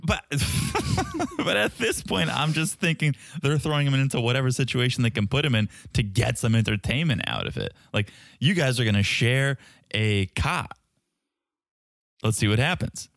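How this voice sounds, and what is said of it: Boston accent. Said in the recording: “it's my Boston accent.”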